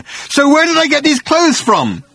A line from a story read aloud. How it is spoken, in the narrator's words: he howled